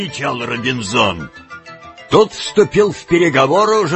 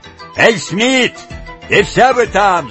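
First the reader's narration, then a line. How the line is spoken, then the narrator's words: Shouted. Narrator (Russian): закричал он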